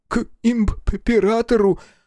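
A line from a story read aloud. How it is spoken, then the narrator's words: Stuttering. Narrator (Russian): Санитар опять начал заикаться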